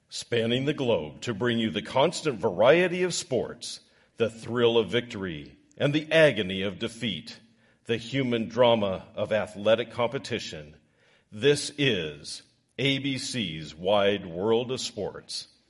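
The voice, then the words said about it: Sports announcer radio voice. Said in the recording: “Let me just get on my radio voice here.”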